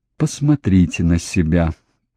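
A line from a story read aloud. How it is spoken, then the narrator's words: Gentle coaxing. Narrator (Russian): мягко уговаривал он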